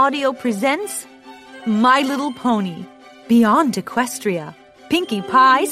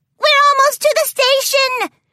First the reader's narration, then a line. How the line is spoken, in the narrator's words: Pinkie Pie squealed, loud enough for the other ponies in the train car to join in on her delight